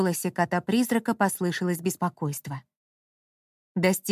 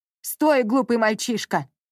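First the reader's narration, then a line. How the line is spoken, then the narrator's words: Yelled. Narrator (Russian): завопил Георг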